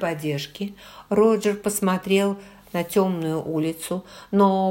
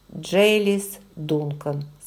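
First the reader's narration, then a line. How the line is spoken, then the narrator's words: Plain. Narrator (Russian): сказал он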